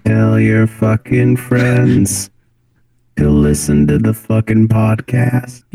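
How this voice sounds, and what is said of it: Robotic computer voice. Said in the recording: “Let me hear that robot voice again ... that was a Windows 10 notification”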